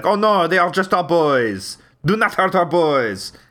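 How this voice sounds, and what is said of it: Attempted Parisian French accent. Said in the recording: “I can't do a Parisian voice ... Can't do Parisian? Yeah, it's hard.”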